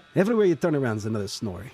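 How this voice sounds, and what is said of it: Attempted Icelandic accent. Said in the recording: “I can't do an Iceland. Icelandic accent. ... It was good enough.”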